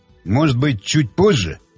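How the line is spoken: Muttered. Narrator (Russian): пробормотал Щербатин

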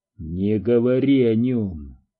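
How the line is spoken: Quiet, icy voice. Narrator (Russian): произнес Доуси тихим, ледяным голосом

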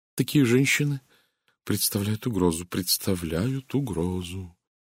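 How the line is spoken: Quiet, deeply emotional voice. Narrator (Russian): Тихим голосом, проникнутым глубоким чувством, начал Стивен Лейн

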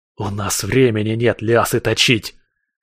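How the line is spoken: Growled while struggling desperately. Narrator (Russian): прорычал я в ответ, отчаянно вырываясь

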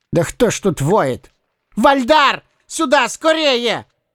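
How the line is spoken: Sudden strained yelling. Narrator (Russian): Вдруг завопил он, едва не срывая голос

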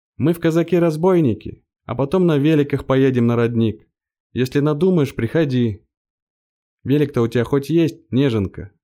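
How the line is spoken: Shouted while running off. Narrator (Russian): убежали, крикнув

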